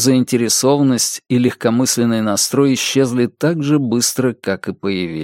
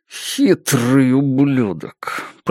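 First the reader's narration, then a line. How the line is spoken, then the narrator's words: Through gritted teeth. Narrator (Russian): процедил Джош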